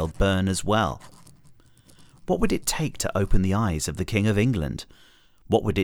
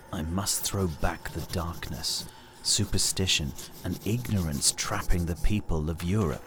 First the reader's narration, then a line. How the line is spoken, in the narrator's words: muttered